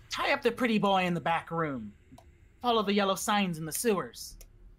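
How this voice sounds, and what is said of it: High, nasal character voice. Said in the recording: “in a high nasally voice”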